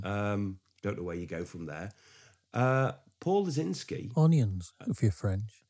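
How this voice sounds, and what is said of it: Lower-pitched voice with a cold. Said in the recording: “I've got a little bit of a cold, so I'm operating slightly down in the register.”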